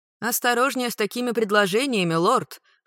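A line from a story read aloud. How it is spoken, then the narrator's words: Snorting, female investigator. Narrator (Russian): фыркнула дознавательница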